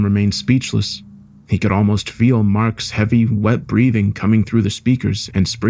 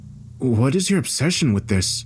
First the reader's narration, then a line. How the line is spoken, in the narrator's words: asked softly, trying his best to compose himself